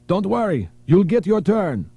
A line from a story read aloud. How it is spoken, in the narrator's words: The terrorist shouted at him